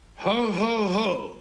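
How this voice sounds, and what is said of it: Santa Claus voice laugh. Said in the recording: “his Santa impression”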